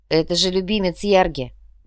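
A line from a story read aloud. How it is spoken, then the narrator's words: Grumbling. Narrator (Russian): проворчал Эрик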